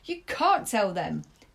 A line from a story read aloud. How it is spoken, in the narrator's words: he snapped back at her